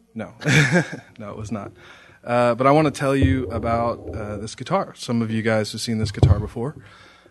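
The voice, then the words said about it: Strained, quiet sick voice. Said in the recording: “My voice is a little shot right now. I'm a little sick. ... So I'm going to talk quietly.”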